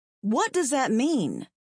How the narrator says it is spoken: I asked in a hard voice

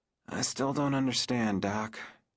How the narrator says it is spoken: he mumbled

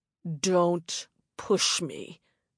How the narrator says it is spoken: the man growled

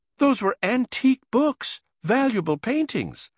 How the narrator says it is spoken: I cried, in disbelief

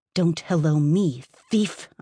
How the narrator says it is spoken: I snarled

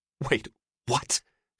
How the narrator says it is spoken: hissed

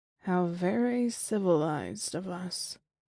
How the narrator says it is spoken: I murmured

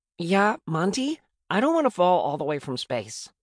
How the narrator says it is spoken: Ivory says

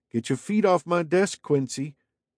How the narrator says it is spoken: grumbled

